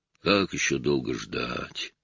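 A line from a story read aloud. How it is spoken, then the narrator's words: Stranger's grumble. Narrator (Russian): проворчал незнакомец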